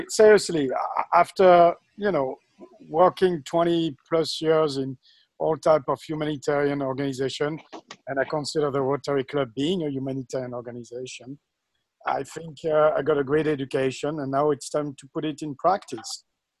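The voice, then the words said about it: French accent. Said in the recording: “because of my accent ... your accent still makes it sound French”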